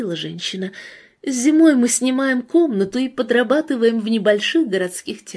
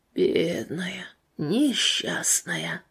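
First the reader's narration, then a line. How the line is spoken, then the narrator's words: Choked mutter, old man. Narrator (Russian): пробормотал старик, и затем, казалось, ком подступил у него к горлу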